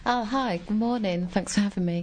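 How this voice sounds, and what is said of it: English accent, calm. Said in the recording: “you've got an English accent... Apparently it's very calming.”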